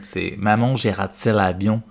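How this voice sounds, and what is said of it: Canadian French accent. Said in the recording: “with the Canadian accent”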